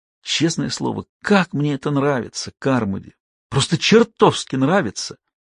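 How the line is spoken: Whisper. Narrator (Russian): Стеббинс снова зашептал

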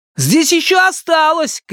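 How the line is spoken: Shout. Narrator (Russian): крикнул

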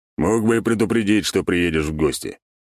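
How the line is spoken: Smirking snort. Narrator (Russian): хмыкнул Альберт

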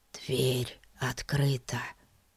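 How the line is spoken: Whisper. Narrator (Russian): шепнул Фати

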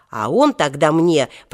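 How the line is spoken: Irritated. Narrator (Russian): продолжал Женька раздраженно

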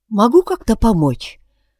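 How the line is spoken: Soft attentive question. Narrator (Russian): спросила Яна совсем иначе, мягко и внимательно

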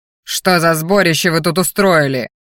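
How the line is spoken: Growled. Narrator (Russian): рыкнул магистр

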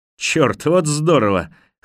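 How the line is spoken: Loud laughter. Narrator (Russian): Харпер громко расхохотался

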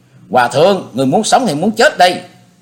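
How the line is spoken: Shrieking shout. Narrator (Vietnamese): giọng Diệp Linh Tô quát thét lên

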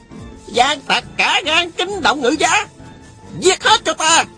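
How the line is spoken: Shouting. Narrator (Vietnamese): Tào Quá Thuần la lên

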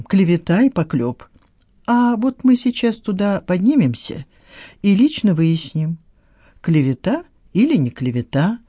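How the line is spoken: Ominous, promising tone. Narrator (Russian): проговорил Саттаров многообещающим тоном

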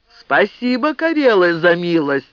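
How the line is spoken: Suddenly loud. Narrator (Russian): неожиданно громко сказал Кеттунен

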